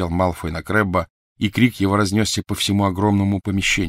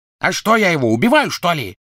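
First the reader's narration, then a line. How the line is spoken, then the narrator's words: Harsh bark. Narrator (Russian): рявкнул Крэб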